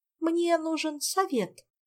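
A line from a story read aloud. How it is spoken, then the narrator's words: Hurried explanation. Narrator (Russian): Торопливо подбирая светские выражения, принялась объяснять Ольга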